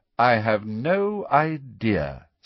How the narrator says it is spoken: said Snape coldly

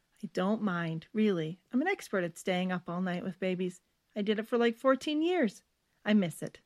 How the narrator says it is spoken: Stephanie said cheerfully

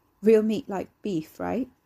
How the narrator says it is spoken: He laughed

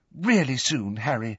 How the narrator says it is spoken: said Hermione earnestly

